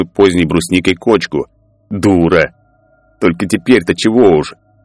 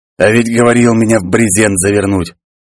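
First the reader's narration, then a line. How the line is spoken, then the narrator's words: Sudden husky voice from behind. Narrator (Russian): Хрипловатый голос, неожиданно раздавшийся из-за спины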